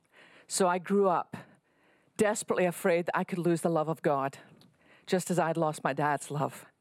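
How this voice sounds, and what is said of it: Scottish accent. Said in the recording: “You can probably tell by my accent, I live in Texas, but I didn't start here. I was born on the west coast of Scotland”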